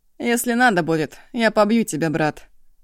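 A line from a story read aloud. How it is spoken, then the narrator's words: Angry, serious. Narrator (Russian): зло, уже без улыбки, заявил он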